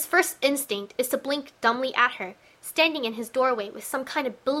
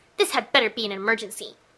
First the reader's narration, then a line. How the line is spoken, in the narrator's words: He snaps